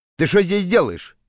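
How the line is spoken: Plain. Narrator (Russian): спросил капитан

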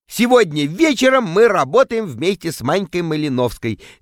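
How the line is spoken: Cheerful announcement. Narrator (Russian): весело сообщаю публике

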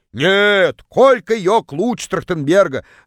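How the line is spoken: Yelling from far away. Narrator (Russian): Заорала одна из них из самого дальнего угла

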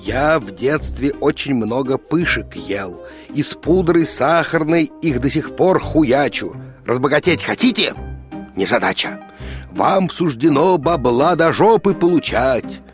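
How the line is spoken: Quiet hiss. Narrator (Russian): тихо зашипел

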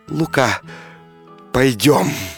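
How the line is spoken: Tender, passionate female whisper. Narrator (Russian): купчиха мгновенно вспыхнула огнем и прошептала нежно, тихо

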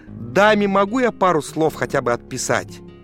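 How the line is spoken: Plain. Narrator (Russian): спросил их Маркс

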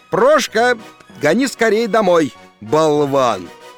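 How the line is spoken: Shouted. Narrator (Russian): крикнул

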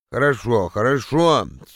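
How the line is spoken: Sleepy agreement. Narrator (Russian): сонно согласился

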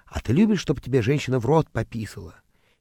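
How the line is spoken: Man's fervent whisper in ear. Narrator (Russian): к моему уху все время прилипал чей-то муж и горячо нашептывал

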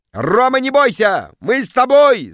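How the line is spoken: Crowd yelling. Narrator (Russian): завопили в зале

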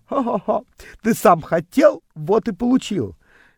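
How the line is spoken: Nasty giggling. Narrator (Russian): Она примерзко хихикала

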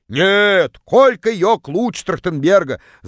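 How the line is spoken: Yelling from far corner. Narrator (Russian): заорала одна из них из самого дальнего угла

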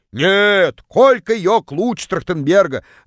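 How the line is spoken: Distant shout. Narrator (Russian): Заорала одна из них из самого дальнего угла

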